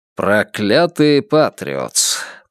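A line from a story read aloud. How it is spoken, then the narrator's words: Muffled grumble. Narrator (Russian): пробурчал он из-за газетной баррикады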